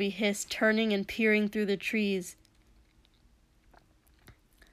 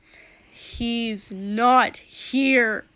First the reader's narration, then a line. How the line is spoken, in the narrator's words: Shoto called loudly, voice shaking